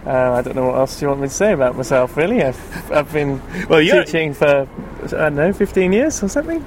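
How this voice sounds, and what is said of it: British accent. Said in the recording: “as they can judge by your accent, you're a British man”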